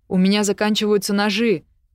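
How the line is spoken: Shout. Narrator (Russian): крикнул Веспер

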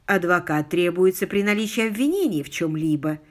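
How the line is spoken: Gentle objection. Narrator (Russian): мягко возразил Алик

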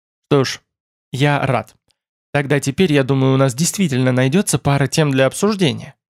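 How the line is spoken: Amused smirk. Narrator (Russian): усмехнулся Тмор

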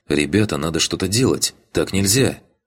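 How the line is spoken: Loud whisper. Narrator (Russian): громко прошептала Таня

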